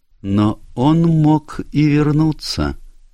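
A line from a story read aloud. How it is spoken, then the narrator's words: Slow speech. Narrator (Russian): медленно сказала она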